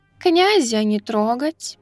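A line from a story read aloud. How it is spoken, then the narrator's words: Purring female voice. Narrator (Russian): промурлыкала Неко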